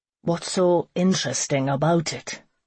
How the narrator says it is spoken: Conan grumbled

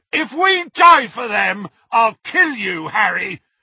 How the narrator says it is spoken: roared Ron's voice

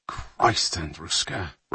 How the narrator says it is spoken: Ryan murmured

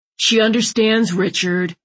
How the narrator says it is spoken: Landon barked

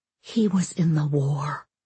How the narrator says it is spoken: Marilyn, idiot woman, whispered to the boy

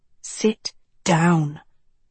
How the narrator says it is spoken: Tedros hissed

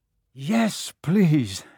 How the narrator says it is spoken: Harry panted

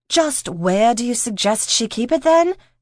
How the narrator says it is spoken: Claire snapped

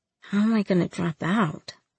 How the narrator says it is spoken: I mumbled to the floor

